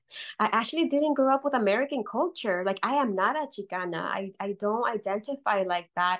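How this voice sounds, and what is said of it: Non-native English accent. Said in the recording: “I can't get rid of my accent.”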